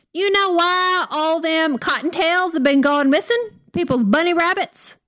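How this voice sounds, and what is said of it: Put-on Southern US accent. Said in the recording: “in my Southern voice ... she was definitely very Southern”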